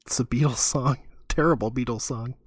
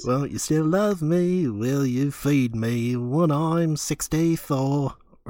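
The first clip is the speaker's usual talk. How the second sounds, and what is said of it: Sung imitation of another person's voice. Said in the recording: “That is honestly a really good impression of”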